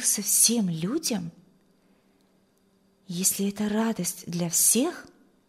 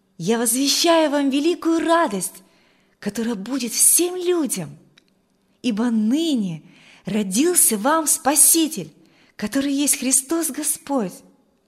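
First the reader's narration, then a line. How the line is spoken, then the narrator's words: Exclaimed. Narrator (Russian): ангел, который воскликнул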